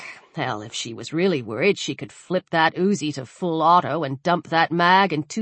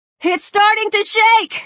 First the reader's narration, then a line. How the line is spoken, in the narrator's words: Luke screamed